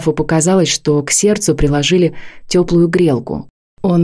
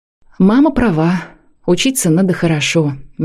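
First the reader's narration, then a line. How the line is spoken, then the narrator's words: Soft, self-annoyed. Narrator (Russian): мягко проговорил граф, рассердившись на себя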